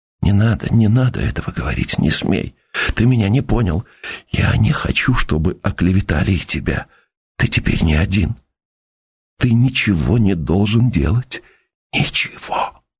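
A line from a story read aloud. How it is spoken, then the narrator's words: Whispering. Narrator (Russian): шепотом сказала в стену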